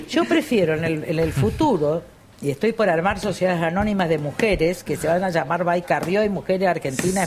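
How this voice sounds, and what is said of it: Regional accent, somewhat rustic lilt. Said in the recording (Spanish): “Me llama la atención atonada, medio campechana ... tiene como un acento ... Tiene una tonada”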